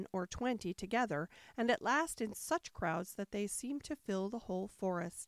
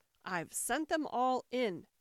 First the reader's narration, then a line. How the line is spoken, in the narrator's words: the king cried in a tone of delight